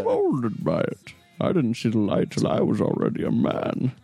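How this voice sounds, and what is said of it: Bad Bane character voice impression. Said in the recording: “We have the worst Bane accent... Who can do the worst Bane impression?”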